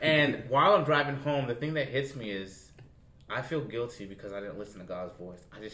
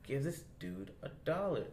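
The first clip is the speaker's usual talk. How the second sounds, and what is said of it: Whispering through clenched teeth. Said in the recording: “he's whispering ... He's like whispering through his teeth.”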